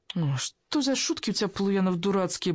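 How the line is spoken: Groaning girl. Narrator (Russian): простонала девушка

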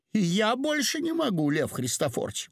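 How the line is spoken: Exclamation. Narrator (Russian): воскликнула

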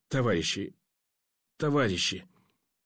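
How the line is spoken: Choked, hoarse rasp. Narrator (Russian): Удушливо хрипло и жутко выдавил горлом пленный

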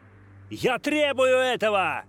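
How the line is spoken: Shouting. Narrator (Russian): Опять крикнул Грант

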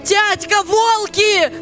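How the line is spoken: Shout. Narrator (Russian): закричал Николка

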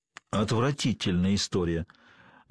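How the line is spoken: Gloomy statement. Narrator (Russian): мрачно констатировал доктор Грейнджер

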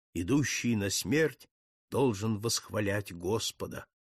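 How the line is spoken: Solemn mournful requiem chant. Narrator (Russian): послышались торжественно заунывные звуки реквиема

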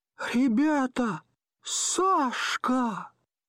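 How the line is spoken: Thin frightened exclaiming voice. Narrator (Russian): чей-то тонкий голос воскликнул испуганно

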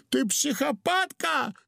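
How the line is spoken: Howled. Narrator (Russian): завопил удалов

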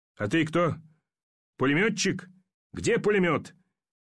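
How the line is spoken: Shouted. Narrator (Russian): закричал Ермаков

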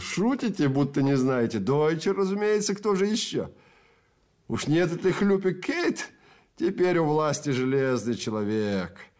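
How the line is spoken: Giggling. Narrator (Russian): Человек за конторкой хихикнул

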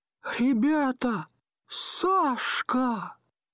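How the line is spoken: Thin, frightened exclamation. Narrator (Russian): чей-то тонкий голос воскликнул испуганно

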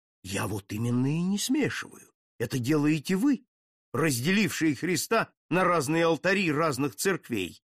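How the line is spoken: Agitated reply. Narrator (Russian): в тон ему ответил взволнованно граф

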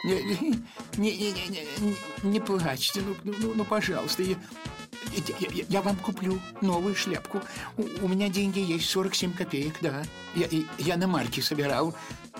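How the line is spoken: Faltering babble. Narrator (Russian): Он лепетал прерывающимся голосом

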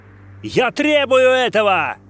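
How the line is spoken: Shouted again. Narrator (Russian): Опять крикнул Грант

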